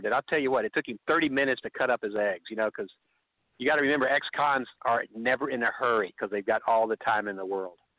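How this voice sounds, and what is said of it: Texan accent. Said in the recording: “he could tell my accent. I go, Texas.”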